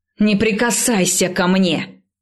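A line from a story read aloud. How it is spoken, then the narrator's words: Angry bark. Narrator (Russian): рявкнула я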